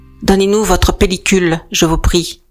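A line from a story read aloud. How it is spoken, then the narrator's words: Curt order. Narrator (French): ordonne-t-il sèchement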